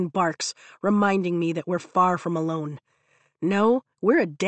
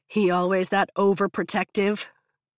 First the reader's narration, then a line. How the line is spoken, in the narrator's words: Zayden grumbles